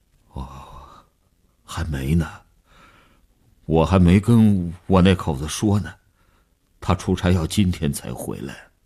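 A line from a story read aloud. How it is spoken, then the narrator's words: Weak trembling voice. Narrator (Chinese): 李大公的声音已经抽空了底气，嘘嘘地发着颤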